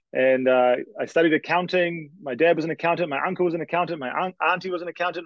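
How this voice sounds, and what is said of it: New Zealand accent. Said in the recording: “I'm from New Zealand, for those trying to guess my accent.”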